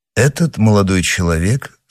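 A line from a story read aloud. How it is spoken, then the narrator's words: Calm. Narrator (Russian): спокойно ответил Атос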